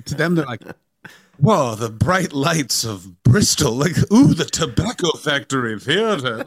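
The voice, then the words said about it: Attempted Welsh accent. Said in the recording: “I can't do a Welsh accent”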